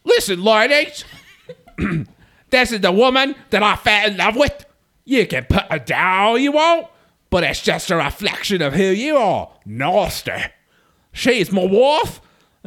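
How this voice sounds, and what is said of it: Imitates another person's voice. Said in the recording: “maybe I can read Aladdin's messages in John voice though”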